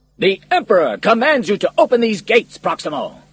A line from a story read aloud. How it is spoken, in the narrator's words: shouted the captain